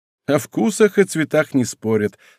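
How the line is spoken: Laughing. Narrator (Russian): сказал, смеясь, Рошфор

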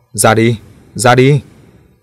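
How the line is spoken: Group shouting repeatedly. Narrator (Vietnamese): Họ luôn miệng hét to

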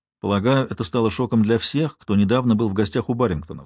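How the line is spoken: Plain. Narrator (Russian): сказала я

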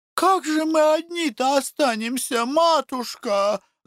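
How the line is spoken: Women pleading, strained voices. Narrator (Russian): взмолились бабы не своим голосом

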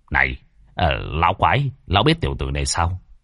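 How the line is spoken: Quiet low voice. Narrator (Vietnamese): Lâm Đạo Minh nhỏ giọng

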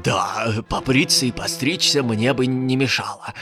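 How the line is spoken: Thoughtful muttering, wood spirit. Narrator (Russian): пробормотал задумчиво леший

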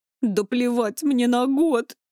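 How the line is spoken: Sobbing. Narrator (Russian): всхлипнула Берта

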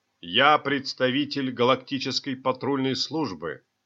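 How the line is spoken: Loud, resolute announcement. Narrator (Russian): громким решительным голосом объявил он

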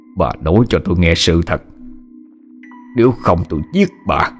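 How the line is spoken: Through gritted teeth, menacing. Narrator (Vietnamese): nghiến răng lên gằn giọng

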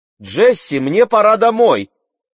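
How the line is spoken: Shout. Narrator (Russian): крикнула Мэгги

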